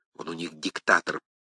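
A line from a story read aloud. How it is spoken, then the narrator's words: Whispered. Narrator (Russian): прошептал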